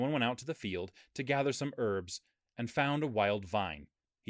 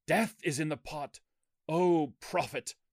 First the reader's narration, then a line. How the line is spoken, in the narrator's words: they cried out